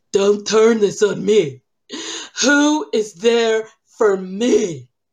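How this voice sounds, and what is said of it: Imitates another person's voice. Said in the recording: “You know I love doing my Lisa voice.”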